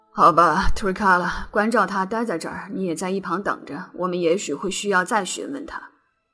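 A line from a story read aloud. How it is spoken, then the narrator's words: Sorrowful lament. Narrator (Chinese): 斯隆太太悲叹道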